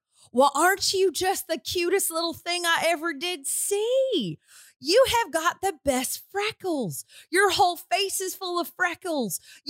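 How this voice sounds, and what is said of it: Exaggerated twangy Southern accent. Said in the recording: “she just says in the most twangy twang ever”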